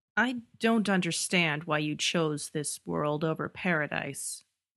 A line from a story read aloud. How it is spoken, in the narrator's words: concedes the angel, in that rough, rasping voice